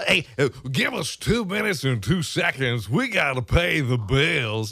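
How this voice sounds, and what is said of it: Poor impression of a sportscaster. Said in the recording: “That was my horrible impression of Harry Caray... It sounded like Bill Cosby swallowed.”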